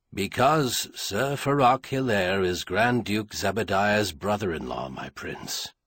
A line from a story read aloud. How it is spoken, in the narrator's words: Corus said in a flat voice